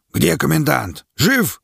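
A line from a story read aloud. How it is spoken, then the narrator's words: Barking shout. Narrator (Russian): гаркнул Квас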